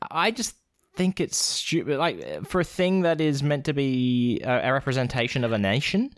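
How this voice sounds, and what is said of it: Usual voice. Nothing is said of it.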